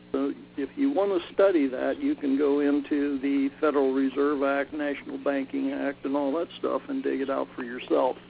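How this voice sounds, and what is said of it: Slightly hoarse voice. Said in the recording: “I'm getting a little hoarse.”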